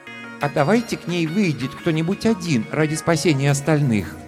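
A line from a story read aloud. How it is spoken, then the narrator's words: Timid suggestion. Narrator (Russian): робко предложил Арактур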